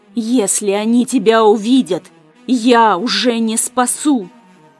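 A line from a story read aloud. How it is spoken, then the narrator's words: Displeased, through gritted teeth. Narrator (Russian): процедил недовольно и весьма отрезвляюще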